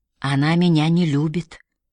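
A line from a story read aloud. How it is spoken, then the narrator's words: Quiet. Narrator (Russian): тихо сказала Мэри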